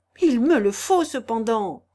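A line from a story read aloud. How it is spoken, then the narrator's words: Exclaimed. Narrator (French): s'écria-t-il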